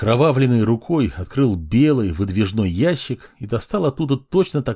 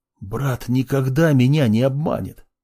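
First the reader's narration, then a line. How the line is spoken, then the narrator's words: Hissed through covered nose. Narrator (Russian): прошипел фармацевт и, не убирая рук от носа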